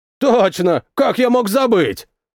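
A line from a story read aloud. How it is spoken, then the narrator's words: Sarcastic snort. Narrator (Russian): саркастично хмыкнул он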